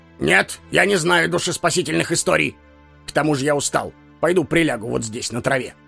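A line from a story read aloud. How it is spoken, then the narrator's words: Angry. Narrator (Russian): сердито ответил стражник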